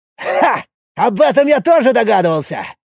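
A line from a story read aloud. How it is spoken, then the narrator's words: Joyful exclamation. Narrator (Russian): радостно воскликнул Якул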